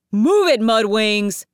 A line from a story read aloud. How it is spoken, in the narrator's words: bellowed the Sand Dragon